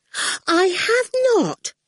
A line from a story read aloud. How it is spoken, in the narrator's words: Miss Potter exclaimed indignantly